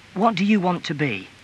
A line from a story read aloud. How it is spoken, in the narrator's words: his mother asked